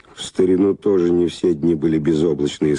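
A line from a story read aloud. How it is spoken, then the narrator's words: Plain. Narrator (Russian): сказала она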